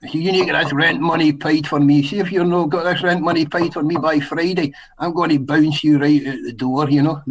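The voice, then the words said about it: Heavy put-on Scottish accent, Robbie Coltrane. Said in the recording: “I put the real heavy Scottish accent on ... The Robbie Coltrane accent.”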